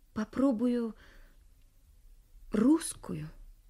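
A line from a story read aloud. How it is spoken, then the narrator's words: Timid. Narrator (Russian): робко сказала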